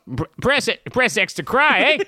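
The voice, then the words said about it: Attempted Australian accent sounding Canadian. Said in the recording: “do an Australian accent... That's Canadian, Australian.”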